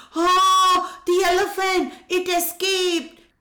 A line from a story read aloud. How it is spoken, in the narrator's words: All the people rushed out of the circus tent screaming